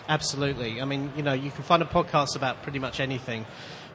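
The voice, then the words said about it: Manchester English accent. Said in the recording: “as you can probably tell from my accent, I'm not a particularly local boy. I'm from Manchester in the United Kingdom.”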